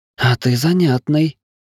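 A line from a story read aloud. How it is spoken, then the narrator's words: Flirtatious remark. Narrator (Russian): заигрывающим тоном бросила вампа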